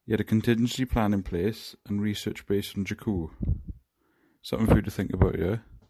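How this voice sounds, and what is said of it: Welsh accent. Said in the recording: “that accent is amazing. No wonder the Welsh are good singers.”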